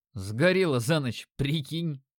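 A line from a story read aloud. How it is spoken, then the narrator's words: Snort. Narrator (Russian): хмыкнул я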